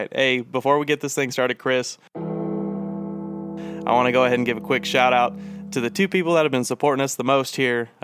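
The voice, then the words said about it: Stuffy, congested voice. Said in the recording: “I've been battling a little bit of a cold the last couple days. So if I sound a little stuffy, my fault.”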